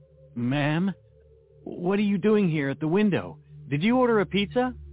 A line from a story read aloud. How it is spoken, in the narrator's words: I said in a trembling voice